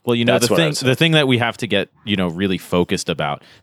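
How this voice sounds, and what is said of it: Put-on serious, earnest voice. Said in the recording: “this voice I do where I'm like ... It's the serious voice.”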